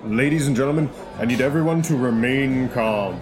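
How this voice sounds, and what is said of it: Deeper, commanding voice. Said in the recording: “going to put on my big boy voice”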